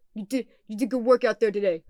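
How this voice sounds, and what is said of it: Deep Brooklyn accent. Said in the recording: “does like the deep Brooklyn accent”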